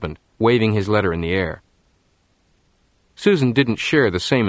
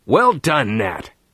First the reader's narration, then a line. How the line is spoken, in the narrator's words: her husband suddenly leaped in the air and shouted